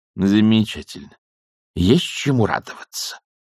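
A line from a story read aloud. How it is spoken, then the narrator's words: Grumbling. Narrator (Russian): проворчала матушка Буревей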